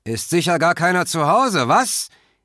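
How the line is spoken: Voice calling again. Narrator (German): rief die Stimme wieder

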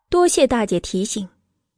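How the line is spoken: Cold, composed. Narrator (Chinese): 又恢复了常态，目光一眨不眨的冷声道

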